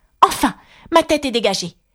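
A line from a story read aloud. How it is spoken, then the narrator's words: Delighted exclaiming. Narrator (French): s'exclama-t-elle d'un ton ravi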